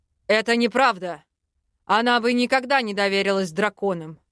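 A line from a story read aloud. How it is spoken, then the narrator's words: Growl. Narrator (Russian): рыкнул Арвен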